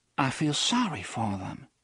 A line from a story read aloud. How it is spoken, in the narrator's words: she whispered